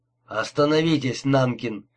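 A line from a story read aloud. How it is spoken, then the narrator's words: Sudden dry command. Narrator (Russian): неожиданно сухо скомандовал Марилли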